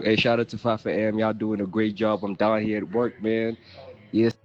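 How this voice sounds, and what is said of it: American Atlanta accent. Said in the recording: “that accent... It's really like giving, you know, America, Atlanta”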